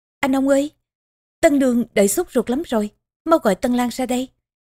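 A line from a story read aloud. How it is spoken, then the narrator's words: Cheerful urging, old voice. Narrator (Vietnamese): Marco cười hớn hở, giống già thúc giục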